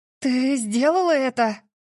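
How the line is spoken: Breathless. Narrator (Russian): выдохнула я

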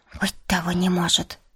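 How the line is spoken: Quiet. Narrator (Russian): сказала она тихо

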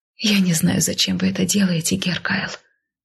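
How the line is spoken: Soft breathed words. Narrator (Russian): тихо выдохнула я

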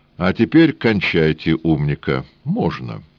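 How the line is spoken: Calm. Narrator (Russian): спокойно сказал

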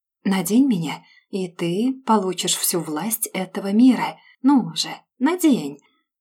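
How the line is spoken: Whisper like rustling sand. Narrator (Russian): может шептать само время тихим шорохом падающих песчинок

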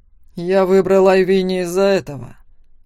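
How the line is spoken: Growled. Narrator (Russian): рыкнул Макс

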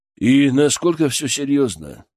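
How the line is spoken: Businesslike question. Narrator (Russian): спросил он уже другим, чисто деловым тоном

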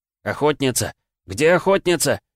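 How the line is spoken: Shouting. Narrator (Russian): закричал Игрорыцарь

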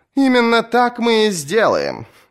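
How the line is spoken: Laughing woman. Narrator (Russian): засмеялась она

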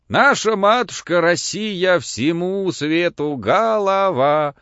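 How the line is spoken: Wild singing, choking off. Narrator (Russian): запел вдруг диким голосом Кирюха, поперхнулся и умолк

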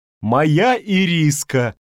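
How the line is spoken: Near-scream of delight. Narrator (Russian): Она чуть не завопила от восторга

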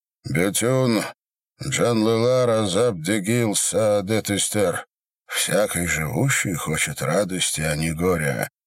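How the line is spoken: Muffled, hollow. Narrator (Russian): сказал глухо

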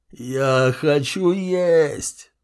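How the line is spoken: Moaning. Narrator (Russian): застонал он

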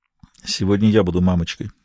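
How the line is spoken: Quiet voice. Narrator (Russian): тихо сказал Бувар

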